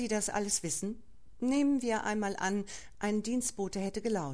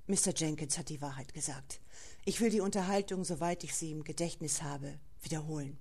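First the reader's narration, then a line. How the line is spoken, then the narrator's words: Quiet, shaken voice. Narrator (German): McComb, aus dessen Gesicht das Rot gewichen war, sagte leise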